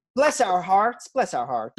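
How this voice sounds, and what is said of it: Put-on regional accent. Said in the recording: “I can't even do that accent”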